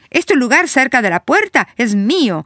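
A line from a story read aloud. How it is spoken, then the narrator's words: Exclaiming. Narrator (Spanish): exclama otra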